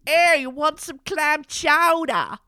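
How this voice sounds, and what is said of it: Put-on Boston accent. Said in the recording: “I've been trying a week to do a Boston accent, and that's the best.”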